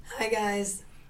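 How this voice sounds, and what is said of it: Raspy voice. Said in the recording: “sporting the raspy voice today”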